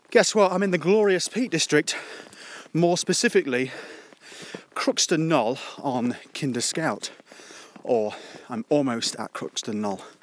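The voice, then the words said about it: Out of breath, panting while speaking. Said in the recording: “As you can tell, I'm out of breath.”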